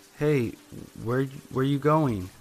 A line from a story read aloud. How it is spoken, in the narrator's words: I slurred like I was drunk